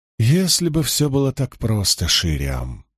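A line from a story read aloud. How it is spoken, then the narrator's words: Sigh. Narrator (Russian): вздохнула Эгвейн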